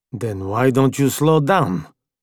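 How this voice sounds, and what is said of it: Foreign-accented male character voice. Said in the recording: “the guy with the foreign accent”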